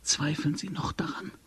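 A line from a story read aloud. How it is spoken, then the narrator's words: Whispered. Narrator (German): flüsterte Tegeljow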